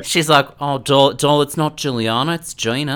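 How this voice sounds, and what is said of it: Imitated Australian accent. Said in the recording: “You are so good at that... I wish I could do an Australian accent”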